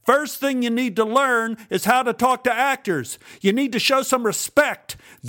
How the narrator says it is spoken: He yelled

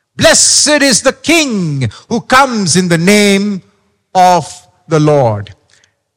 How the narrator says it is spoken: They are shouting loudly

